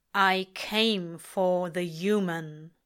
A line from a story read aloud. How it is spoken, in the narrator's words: Death says with the rumble of a motorway overpass, the pileup of a traffic accident